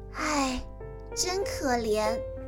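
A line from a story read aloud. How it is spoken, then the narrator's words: Sighing. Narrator (Chinese): 叹了一口气，说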